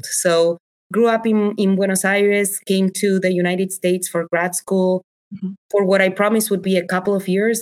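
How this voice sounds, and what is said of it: Non-native accented English. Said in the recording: “I'm the mom who speaks English with an accent”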